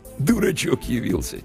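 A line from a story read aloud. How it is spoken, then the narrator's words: Quiet chuckle. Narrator (Russian): тихонько хохотнул один из приятелей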